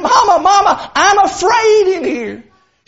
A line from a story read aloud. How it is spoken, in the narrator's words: he cried out again